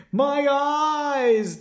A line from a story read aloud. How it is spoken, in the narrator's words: the man wailed